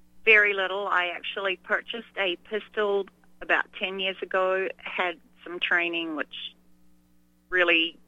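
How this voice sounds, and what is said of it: New Zealand accent. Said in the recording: “A New Zealand accent”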